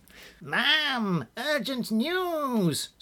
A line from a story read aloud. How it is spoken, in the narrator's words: squeaked General Squealer